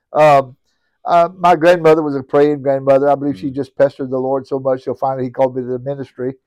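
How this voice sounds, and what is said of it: Cajun Southern US accent. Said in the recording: “I'm a born and bred Cajun, uh, nestled right here in Cajun country. I guess you can tell by my accent”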